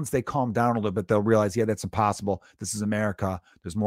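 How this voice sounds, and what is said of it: Usual voice. Nothing is said of it.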